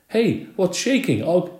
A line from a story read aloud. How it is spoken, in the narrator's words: called out